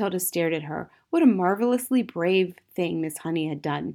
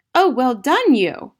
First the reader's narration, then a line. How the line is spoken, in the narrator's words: Matilda cried